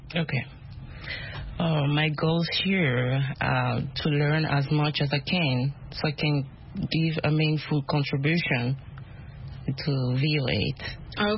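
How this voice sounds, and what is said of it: Non-native English accent. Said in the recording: “My accent. ... we love accents. We all have accents.”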